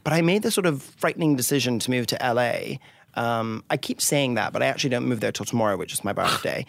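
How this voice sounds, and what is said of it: Scottish-raised, posh British-sounding accent. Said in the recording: “this fabulous accent ... I'm originally from Scotland ... So I somewhat have a Joan Collins accent.”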